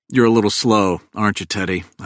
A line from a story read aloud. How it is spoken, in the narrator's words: I sigh